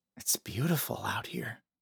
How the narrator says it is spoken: Ben whispered

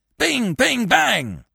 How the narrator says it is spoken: roared the thunder

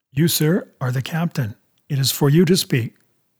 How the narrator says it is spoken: says Mr

